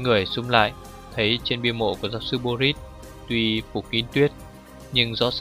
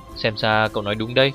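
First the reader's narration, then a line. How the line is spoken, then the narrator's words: Plain. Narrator (Vietnamese): Hàn Giang nói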